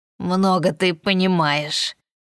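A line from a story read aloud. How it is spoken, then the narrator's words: Grumbling baron. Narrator (Russian): проворчал барон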